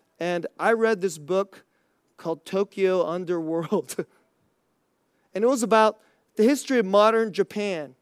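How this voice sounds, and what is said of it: Slightly raspy voice. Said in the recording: “you could probably hear my voice a little raspy because I'm fighting a cold”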